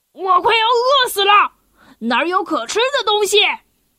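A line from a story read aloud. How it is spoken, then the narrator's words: Lion roaring. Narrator (Chinese): 那只狮子咆哮着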